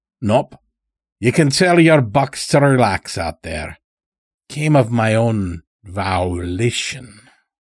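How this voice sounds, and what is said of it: Strange drawling unplaceable accent. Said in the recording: “He dragged the word out like he was tasting it ... spoke in such a strange way that he couldn't place it. That accent.”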